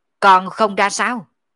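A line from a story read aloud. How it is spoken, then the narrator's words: Furious sudden roar. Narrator (Vietnamese): Sở Dương giận không kềm được, đột nhiên quát to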